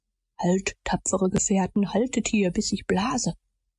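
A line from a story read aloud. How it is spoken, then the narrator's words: Whispered. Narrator (German): flüsterte er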